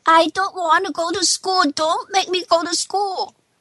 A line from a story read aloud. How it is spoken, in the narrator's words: She shouts